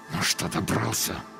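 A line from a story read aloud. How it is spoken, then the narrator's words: Angry hiss through teeth. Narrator (Russian): зло прошипел сквозь зубы человек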